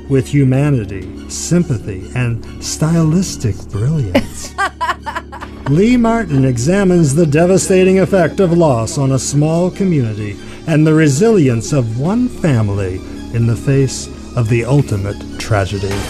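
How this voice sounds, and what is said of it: Polished radio announcer voice. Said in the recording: “in your radio voice”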